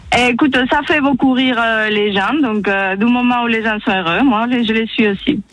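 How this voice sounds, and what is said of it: Spanish accent speaking French. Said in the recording (French): “ton accent, mon Dieu, il est magnifique... il est d'où ton accent?... Et je suis espagnole... C'est beau l'accent espagnol.”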